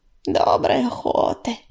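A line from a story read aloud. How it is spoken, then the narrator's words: Creaky voice. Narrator (Russian): проскрипела Белочка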